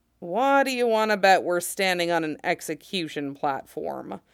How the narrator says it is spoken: Cody asks grimly

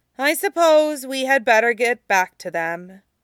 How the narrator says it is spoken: Tong Fan says at length, sighing

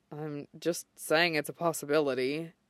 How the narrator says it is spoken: Shota mutters

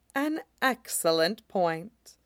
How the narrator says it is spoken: Aphrodite murmurs

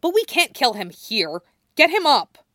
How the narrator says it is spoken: Stella snarls

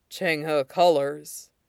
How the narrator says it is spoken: Ming Chui murmurs

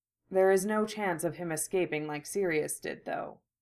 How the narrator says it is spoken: Remus spoke quietly

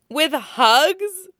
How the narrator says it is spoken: Luffy laughs, taking great delight

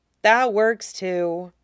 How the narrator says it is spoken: Cal sighed

